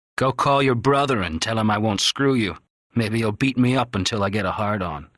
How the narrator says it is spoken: He had sneered

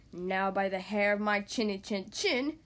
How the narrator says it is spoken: he roared

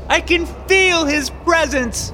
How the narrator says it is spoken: She shouted eagerly to the congregation

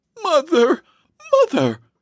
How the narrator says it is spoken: she exclaimed

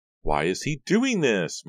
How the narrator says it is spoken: Maya cried

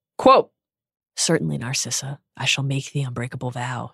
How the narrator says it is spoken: he said quietly

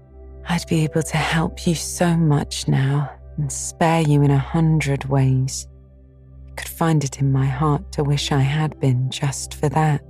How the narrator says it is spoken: said Anne wistfully

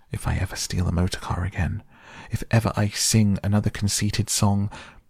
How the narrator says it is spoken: gasped the poor toad

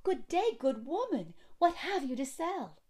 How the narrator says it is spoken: Snow White cried

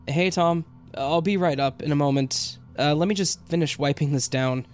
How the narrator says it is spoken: I shouted out

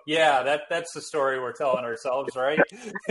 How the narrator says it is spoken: laughing

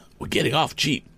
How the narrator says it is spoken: the balloonist whispered to Tom

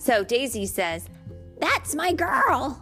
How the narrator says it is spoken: yelped Daisy

